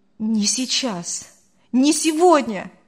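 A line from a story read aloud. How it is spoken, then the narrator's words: Exclaimed. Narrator (Russian): воскликнул Артур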